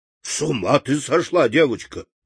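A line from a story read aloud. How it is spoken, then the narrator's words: Grumbling sailor. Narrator (Russian): проворчал моряк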